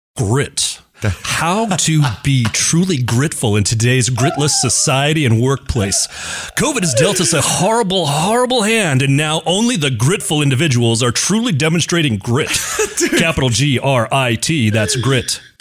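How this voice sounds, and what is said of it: Deep announcer-style radio voice. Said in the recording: “you have an unbelievable radio voice”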